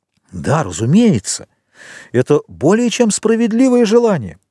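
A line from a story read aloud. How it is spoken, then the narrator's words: Exclaiming. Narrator (Russian): воскликнул господин де Бовиль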